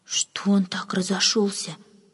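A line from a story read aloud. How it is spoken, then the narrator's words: Whispered question. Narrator (Russian): шепотом спросила одна служанка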